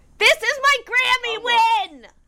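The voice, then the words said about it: Excited screaming. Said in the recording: “You're screaming.”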